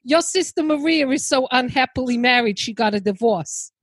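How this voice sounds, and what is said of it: Put-on throaty New Jersey accent. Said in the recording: “straight from Goodfellas... I gotta try and get the throaty. Uh, I'll maybe do a more New Jersey”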